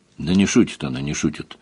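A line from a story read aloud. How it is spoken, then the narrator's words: Gloomy. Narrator (Russian): мрачно подтвердил Шидарис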